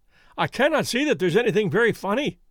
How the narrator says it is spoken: cried our client, flushing up to the roots of his flaming head

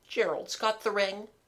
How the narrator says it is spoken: said Mabel miserably

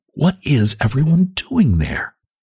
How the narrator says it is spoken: she whispered

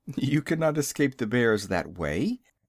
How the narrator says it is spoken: The owner of the unseen voice laughed lightly and said

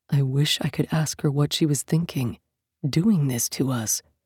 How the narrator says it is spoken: Yaskander murmured

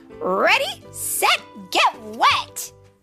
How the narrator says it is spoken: Zuma barked

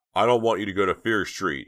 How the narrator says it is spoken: he shouted to Dina

